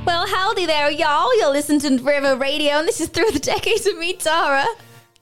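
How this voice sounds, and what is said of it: Poor put-on Tennessee accent. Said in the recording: “that was a really terrible accent ... I was going for Tennessee rather than Canadian”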